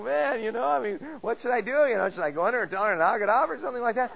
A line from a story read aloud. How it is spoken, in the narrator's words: I'm kind of laughing to myself, and I go